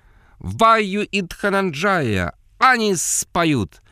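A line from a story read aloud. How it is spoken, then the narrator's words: Shrill female falsetto. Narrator (Russian): взвизгнул женский фальцет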